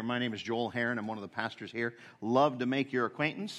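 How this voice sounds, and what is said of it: American accent. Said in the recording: “You didn't say it with the same accent that I did... I'm not an Aussie... whether I'm a Canuck or a Yank, I am the latter. I am a Yank.”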